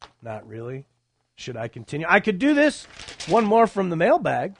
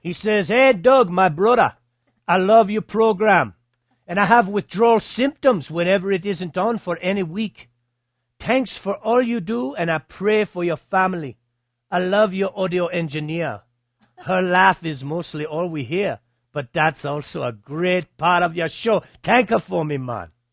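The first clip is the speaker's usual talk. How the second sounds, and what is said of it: Put-on Jamaican accent. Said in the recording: “this needs to be read in a Jamaican accent”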